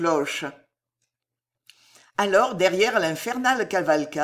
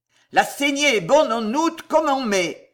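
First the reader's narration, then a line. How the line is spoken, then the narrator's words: Yelling. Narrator (French): hurlait Tavannes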